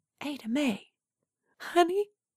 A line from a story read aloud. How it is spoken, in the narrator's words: Coraline whispered through her tears